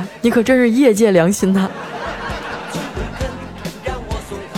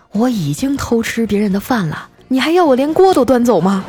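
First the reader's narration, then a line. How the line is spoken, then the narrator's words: Sighing man. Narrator (Chinese): 那男的呀，叹了口气说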